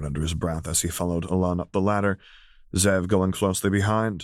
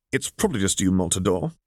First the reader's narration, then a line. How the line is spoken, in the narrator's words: Alon snapped back